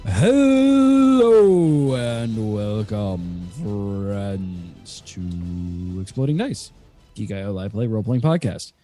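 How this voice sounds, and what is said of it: Sore, subdued voice. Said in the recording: “My voice is still very sore, so I'm not yelling.”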